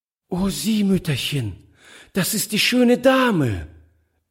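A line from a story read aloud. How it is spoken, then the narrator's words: Delighted exclamation. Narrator (German): rief sie voll Entzücken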